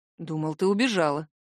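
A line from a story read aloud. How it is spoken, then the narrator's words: Hoarse reply. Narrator (Russian): хрипло отзываюсь я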